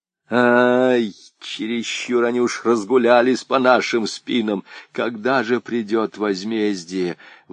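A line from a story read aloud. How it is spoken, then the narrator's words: Angry old man's groan. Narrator (Russian): В избытке гнева старик даже застонал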